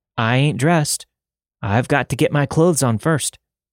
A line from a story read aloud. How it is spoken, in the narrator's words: she groaned